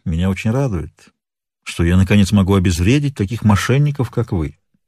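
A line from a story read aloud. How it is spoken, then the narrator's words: Calm. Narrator (Russian): спокойно произнес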